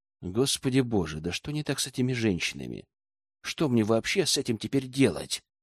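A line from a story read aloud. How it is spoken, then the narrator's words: Soundless mouthed whisper. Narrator (Russian): прошептал одними губами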